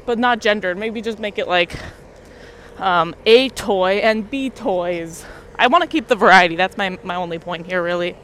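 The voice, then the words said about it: Loud, near-yelling speech. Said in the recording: “Sorry if it sounds like I'm yelling at you. I don't know how loud I am”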